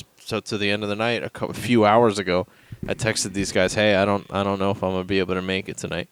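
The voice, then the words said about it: Sick, miserable-sounding voice. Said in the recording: “you probably hear it in my voice. I sound miserable because I got sick today.”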